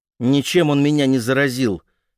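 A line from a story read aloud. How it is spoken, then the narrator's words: Sharp, emotional. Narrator (Russian): ответила резко она матери, намного эмоциональнее, чем хотела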